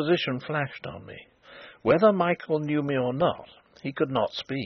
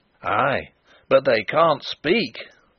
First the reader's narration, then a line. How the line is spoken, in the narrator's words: roared Sapt in grim triumph